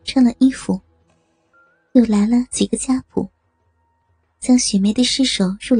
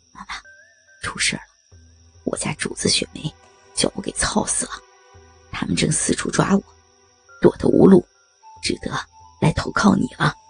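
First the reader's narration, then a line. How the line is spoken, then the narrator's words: Low voice. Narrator (Chinese): 对常妈妈低声说道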